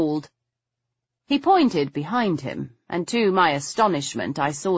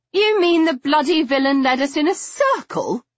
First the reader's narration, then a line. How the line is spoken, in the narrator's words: I cried